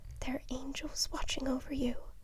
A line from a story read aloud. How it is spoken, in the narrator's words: his mom would whisper